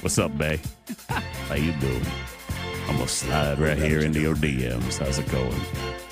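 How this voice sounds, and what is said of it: Deep seductive voice. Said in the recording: “A nice deep voice.”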